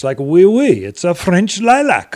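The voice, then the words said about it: Terrible put-on French accent. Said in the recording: “that was a terrible, to my French friends, I apologize terribly for that terrible accent, but that's the closest I can do.”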